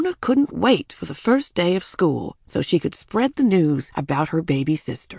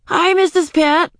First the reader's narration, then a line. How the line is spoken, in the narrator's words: Ramona called out